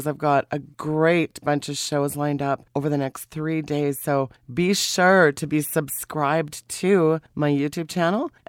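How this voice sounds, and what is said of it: Sick, under-the-weather voice. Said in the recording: “You can tell by my voice, I'm a little under the weather, and that's an understatement this week”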